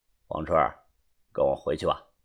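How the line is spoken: Flat, indifferent. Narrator (Chinese): 这个男人淡淡的说道

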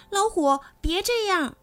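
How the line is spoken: Many voices shouting. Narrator (Chinese): 动物们都叫起来

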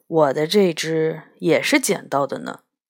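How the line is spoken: Sudden hushed voice. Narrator (Chinese): 杨永乐突然压低了声音说

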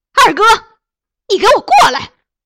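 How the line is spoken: Loud shout toward gate. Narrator (Chinese): 朝院门方向高喊

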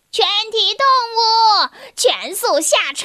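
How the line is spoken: Loud repeated rooster cry. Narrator (Chinese): 公鸡，一遍又一遍的在驴子的耳边大声的叫着

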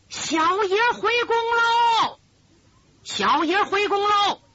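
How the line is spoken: Shout from outside. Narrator (Chinese): 外边有人喊

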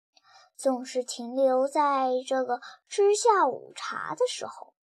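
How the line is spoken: Sighing. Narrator (Chinese): 茂商叹了口气说

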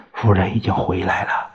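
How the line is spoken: Low voice. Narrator (Chinese): 熊世辉低声说

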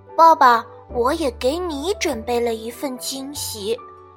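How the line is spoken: Whispering in ear. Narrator (Chinese): 比尔趴在爸爸的耳边轻声说

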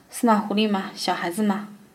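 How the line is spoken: Tolerant laughing. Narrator (Chinese): 卡可汗冲我宽容的笑

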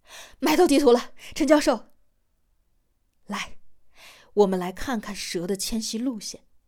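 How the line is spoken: Breathless shouting. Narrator (Chinese): 小张气喘吁吁地嚷道

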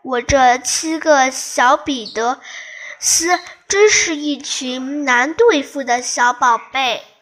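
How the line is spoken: Weak, breathy, low sigh. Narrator (Chinese): 气息虚弱的低声感叹

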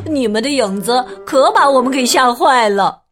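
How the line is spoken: Laughing. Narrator (Chinese): 霍西笑着说

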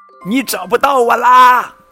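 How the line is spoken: Shouting with all strength. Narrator (Chinese): 跟屁熊使出吃奶的力气喊

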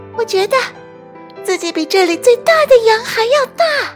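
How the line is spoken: Screaming. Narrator (Chinese): 婷卡尖叫着

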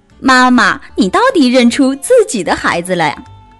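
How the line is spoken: Laughing. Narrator (Chinese): 小白兔笑了

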